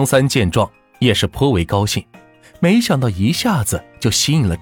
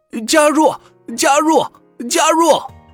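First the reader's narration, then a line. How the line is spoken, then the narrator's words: Crowd shouting. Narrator (Chinese): 众人喊道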